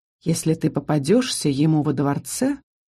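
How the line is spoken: Inner voice whispering. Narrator (Russian): шепнул внутренний голос

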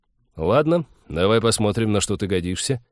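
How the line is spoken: Sudden snort of amusement. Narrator (Russian): Тед неожиданно хмыкнул, сказал

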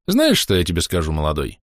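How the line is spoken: Smirking grunt. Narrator (Russian): хмыкнул Семеныч

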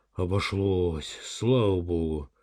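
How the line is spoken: Relieved exhale. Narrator (Russian): выдохнула за спиной Данилова Вера

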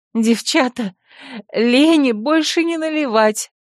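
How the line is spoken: Tearful moan. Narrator (Russian): вытирая слезы, простонала, как самая трезвая

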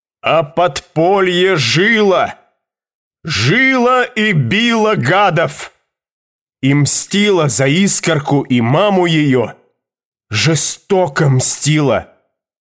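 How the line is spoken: Loud shout. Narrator (Russian): крикнул на весь зал

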